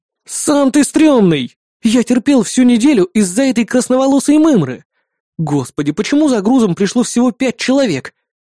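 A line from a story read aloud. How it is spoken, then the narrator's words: Resigned sigh. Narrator (Russian): обреченно выдохнул я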